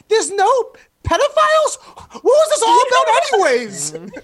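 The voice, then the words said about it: Imitates another person's voice. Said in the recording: “Can I do a quick impression real fast? This is my impression of Katu”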